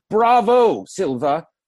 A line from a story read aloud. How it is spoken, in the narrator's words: one of the church cantors suddenly boomed out